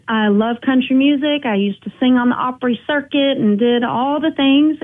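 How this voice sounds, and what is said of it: Country accent. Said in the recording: “I was never really a cowgirl. But I've got the accent.”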